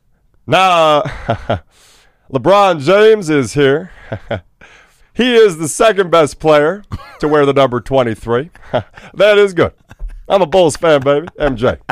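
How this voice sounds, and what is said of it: Loose, deep-voiced presidential impression. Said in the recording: “His voice kind of becomes more loose and he'll make some sort of a dad joke ... real deep voice impression that you got to have. It's got to live in your register.”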